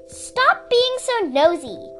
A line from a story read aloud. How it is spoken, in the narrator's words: Sundu said fiercely